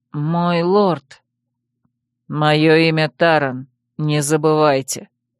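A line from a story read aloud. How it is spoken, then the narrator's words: Calm. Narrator (Russian): спокойно повторил лорд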